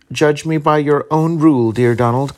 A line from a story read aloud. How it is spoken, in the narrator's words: cried his wife, blandishingly